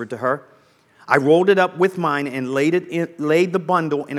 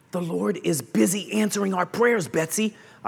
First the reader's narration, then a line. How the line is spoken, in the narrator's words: I whispered